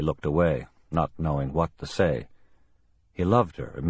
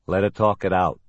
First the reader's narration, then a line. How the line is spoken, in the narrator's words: Sam said